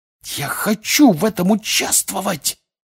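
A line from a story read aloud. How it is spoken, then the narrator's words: Loud hiss. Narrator (Russian): прошипел на весь стол Фред Уизли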